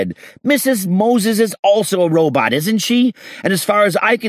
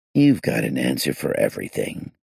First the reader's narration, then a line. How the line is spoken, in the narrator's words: I said gloomily